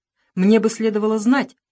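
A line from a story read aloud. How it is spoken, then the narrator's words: Angry. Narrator (Russian): сердито сказал Перегрин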